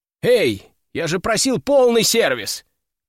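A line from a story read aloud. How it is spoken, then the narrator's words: Shout after someone. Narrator (Russian): крикнул я им вслед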